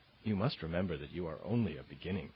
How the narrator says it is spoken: she said

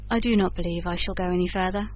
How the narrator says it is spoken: said he sullenly

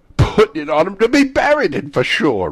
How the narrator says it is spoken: replied the old woman with a laugh

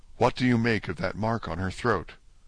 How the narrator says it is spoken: asked in a whisper

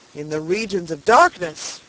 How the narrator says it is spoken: cried a voice

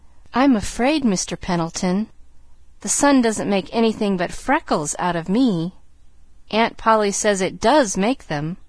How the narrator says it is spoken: she added mournfully

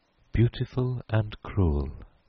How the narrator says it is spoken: she repeated dreamily

